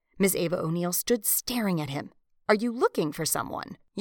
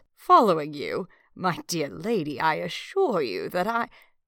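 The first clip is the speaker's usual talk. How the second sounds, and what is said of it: Plummy upper-class accent. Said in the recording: “William shaped his voice into that same plummy accent.”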